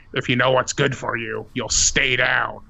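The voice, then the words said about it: Spooky altered mind voice. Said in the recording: “alter my voice in my spooky mind voice”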